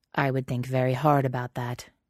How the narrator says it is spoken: Jack says flatly

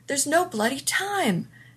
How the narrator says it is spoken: Beckett shouted

